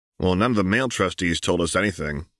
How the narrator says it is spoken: grumbled Othniel

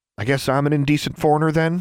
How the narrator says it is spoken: she snapped

